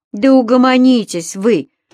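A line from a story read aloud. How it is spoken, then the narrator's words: Roared. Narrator (Russian): взревел Михаил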